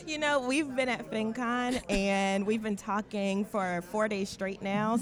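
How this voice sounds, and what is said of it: Raspy, hoarse voice. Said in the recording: “I'm a little raspy myself.”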